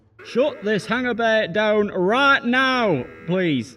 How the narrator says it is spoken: yelled Sarge from the hangar floor

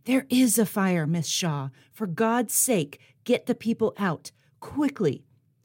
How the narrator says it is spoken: a man from the organizing committee hissed in a terrified whisper

